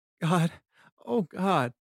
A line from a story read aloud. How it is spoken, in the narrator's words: she whimpered